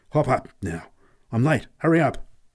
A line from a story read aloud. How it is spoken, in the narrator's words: He exclaimed urgently